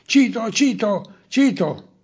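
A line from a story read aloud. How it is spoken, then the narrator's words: Surprised guards shouting. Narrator (Italian): Gli armigeni sorpresi avevano gridato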